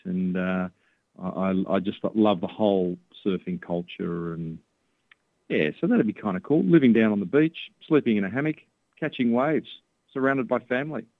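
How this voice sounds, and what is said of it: Australian accent. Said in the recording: “you got that Aussie accent”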